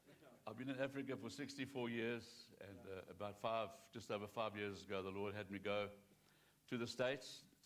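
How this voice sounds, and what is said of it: Non-American accent. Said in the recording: “I don't have an American accent.”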